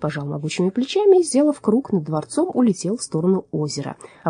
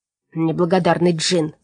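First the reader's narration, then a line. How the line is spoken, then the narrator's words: Angry muttering. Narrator (Russian): зло бормотал он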